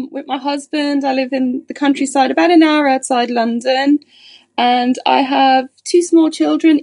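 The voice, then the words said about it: Irish accent. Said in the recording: “As you can probably tell from my accent, I'm originally from Ireland”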